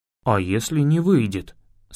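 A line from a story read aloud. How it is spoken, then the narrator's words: Plain question. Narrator (Russian): спросил Лави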